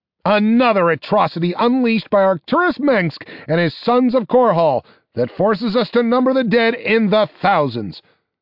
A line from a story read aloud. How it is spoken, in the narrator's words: said the reporter, his voice appropriately outraged, and mixed with not a little relish